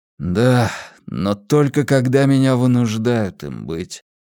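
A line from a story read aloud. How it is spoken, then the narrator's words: Sad. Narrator (Russian): грустно произнес он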